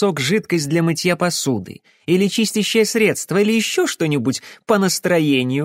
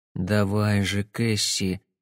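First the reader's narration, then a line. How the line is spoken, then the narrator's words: Muttered. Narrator (Russian): пробормотал Сэм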